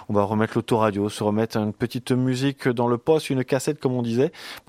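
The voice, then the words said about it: Put-on accent. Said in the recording (French): “Pourquoi je parle avec un accent, j'en sais rien ... reprenons un accent bien de chez nous”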